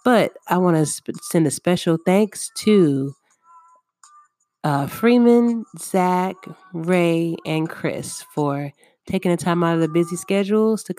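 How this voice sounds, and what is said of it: Voice a little off, cold. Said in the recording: “my voice is a little off. I do feel like I'm catching a cold”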